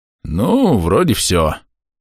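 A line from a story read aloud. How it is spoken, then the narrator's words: Sleepy stretching voice. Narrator (Russian): сонно потянулся Али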